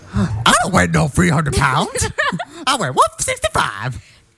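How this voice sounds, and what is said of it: Imitates a film character's voice. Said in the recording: “your best Respucia impression?”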